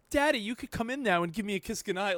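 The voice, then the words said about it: Put-on British accent, child voice. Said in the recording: “British? Why is your impersonation of your daughter British?”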